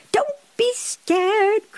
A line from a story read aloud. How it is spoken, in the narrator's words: cried Pippi